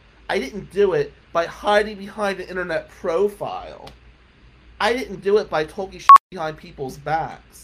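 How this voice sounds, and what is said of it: New Jersey accent. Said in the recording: “I got a Jersey accent.”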